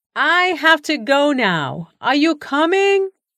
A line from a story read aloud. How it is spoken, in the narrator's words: called out one last time